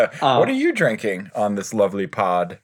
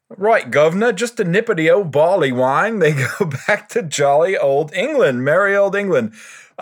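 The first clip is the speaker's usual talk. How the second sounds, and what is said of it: Deliberately bad put-on British accent. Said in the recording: “my terrible British accent ... I thought that was delightful.”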